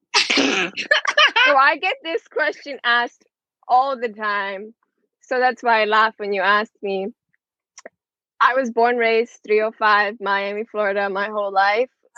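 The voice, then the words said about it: Miami accent with slight Hispanic influence. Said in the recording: “you sound like, you know, a little bit of like Hispanic influx”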